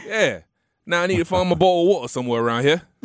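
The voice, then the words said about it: Put-on British accent. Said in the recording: “I would say I'm not too shabby at a British accent ... That's not bad ... pretty good ... Just take the T out of the word and just kind of have a slight pause in the middle of it. And that's exactly what he just did.”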